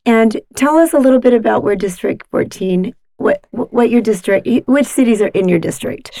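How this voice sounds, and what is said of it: Scratchy, squeaky voice. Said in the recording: “My voice is a little scratchy, so I will try not to be too squeaky”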